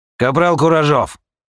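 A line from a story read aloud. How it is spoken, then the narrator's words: Barked. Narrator (Russian): рявкнул Кач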